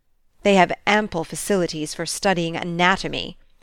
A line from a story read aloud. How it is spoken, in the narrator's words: sneered Kirby